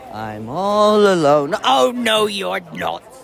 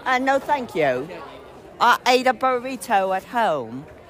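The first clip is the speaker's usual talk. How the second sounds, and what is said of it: Robotic put-on British accent. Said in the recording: “Do I sound like a British robot here? I don't want to be sounding like a British robot.”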